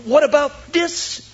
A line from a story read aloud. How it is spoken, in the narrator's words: cries with her high-pitched voice